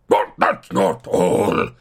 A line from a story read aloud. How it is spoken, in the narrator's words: he snarled